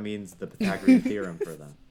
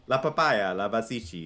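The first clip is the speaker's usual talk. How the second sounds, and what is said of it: Minion cartoon character voice. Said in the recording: “That was really good, Minion. ... Your Minionese accent is so good.”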